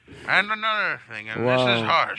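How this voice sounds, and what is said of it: Old man voice. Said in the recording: “talking like an old man ... old man voice”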